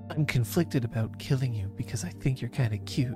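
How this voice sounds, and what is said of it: Imitates another character's voice. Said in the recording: “I do a pretty good Sela imitation ... You do your Sela impression”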